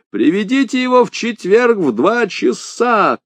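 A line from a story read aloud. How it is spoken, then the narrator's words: Shouting into ear. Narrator (Russian): крикнул я в ухо старику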